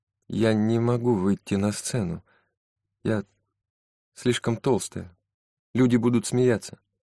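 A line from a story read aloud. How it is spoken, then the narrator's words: Quiet voice. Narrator (Russian): Тихим голосом Мэри Энн произнесла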